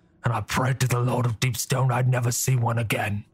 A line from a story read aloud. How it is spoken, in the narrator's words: said grimly